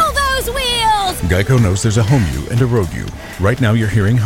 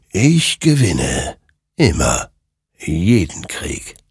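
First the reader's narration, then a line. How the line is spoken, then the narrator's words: Murmured. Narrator (German): murmelte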